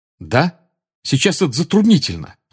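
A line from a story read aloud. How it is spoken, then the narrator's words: Snapping retort. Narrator (Russian): огрызнулся Гарри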